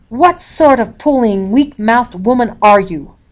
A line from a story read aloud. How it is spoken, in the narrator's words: Father roared